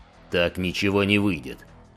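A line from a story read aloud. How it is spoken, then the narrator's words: Muttered growl to himself. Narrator (Russian): прорычал сержант скорее самому себе, чем окружающим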